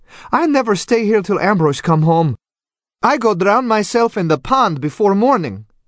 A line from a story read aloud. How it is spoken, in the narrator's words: Antonia exclaimed